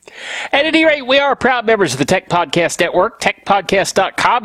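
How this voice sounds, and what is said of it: Stuffy, congested voice. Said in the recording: “I have a little cold. ... So hang in there if I sound a little stuffy. ... I am a little stuffy”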